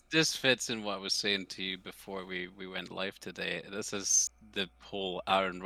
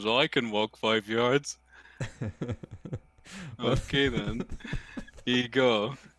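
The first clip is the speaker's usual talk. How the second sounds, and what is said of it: Imitates another person's voice. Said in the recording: “That is his voice. That's a really good impression of him, actually.”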